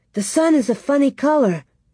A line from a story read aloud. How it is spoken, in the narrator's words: she cried